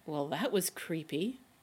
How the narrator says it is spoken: Rodney mutters

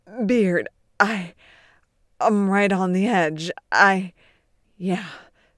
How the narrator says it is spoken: Beard grunts, thrusting wildly

